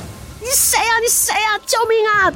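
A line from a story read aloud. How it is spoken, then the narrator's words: Loud scream for help. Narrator (Chinese): 她大声呼叫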